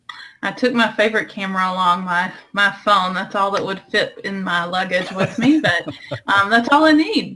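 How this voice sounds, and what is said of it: Southern US accent. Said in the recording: “I tend to pick up the southern accent a little bit heavier”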